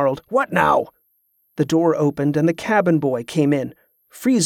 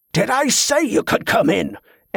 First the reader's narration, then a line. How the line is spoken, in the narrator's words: Ambrose roared